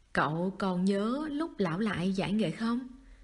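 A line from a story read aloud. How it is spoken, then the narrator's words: Smiling. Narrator (Vietnamese): Kỳ Túy mỉm cười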